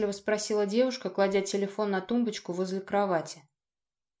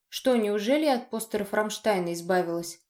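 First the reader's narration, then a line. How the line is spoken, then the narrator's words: Snorting. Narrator (Russian): хмыкнул я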